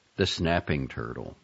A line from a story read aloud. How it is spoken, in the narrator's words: Jacob muttered